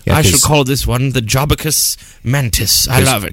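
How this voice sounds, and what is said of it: Put-on British accent. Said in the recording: “I suddenly have a British accent”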